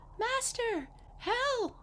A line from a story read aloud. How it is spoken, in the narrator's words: the harp cried out